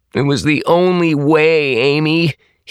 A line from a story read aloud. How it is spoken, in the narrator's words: he moaned